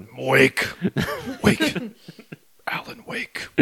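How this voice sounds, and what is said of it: Dark, ominous character voice impression. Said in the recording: “your best Alan Wake darkness impression”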